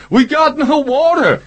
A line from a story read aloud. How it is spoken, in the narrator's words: Bobby shouted back